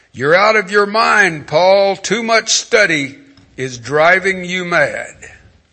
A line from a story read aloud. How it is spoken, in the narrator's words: exclaimed in a loud voice